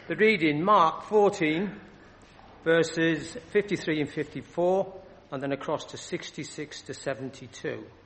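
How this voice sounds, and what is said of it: Northeastern English accent. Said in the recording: “apparently I've got a northeastern accent ... they say you never lose it”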